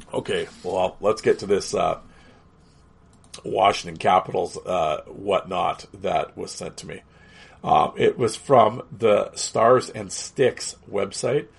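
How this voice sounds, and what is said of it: Hoarse, fading voice. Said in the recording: “as you can hear, I'm losing my voice”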